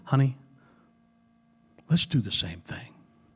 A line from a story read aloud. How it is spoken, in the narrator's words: a woman quietly whispered